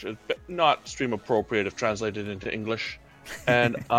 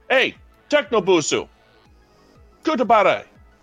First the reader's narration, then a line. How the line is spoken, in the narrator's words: I am going to shout